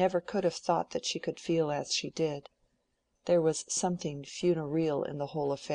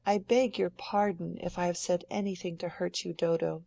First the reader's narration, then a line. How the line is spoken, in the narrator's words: said Celia, with a slight sob